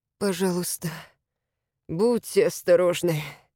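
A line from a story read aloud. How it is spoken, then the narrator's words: Muffled moan. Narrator (Russian): простонал человек под лапником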